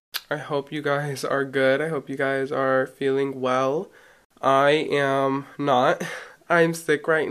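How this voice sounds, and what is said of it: Sick-sounding voice. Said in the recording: “my voice may be a little different the rest of this episode because, you know, I still am sick, but I was really sick”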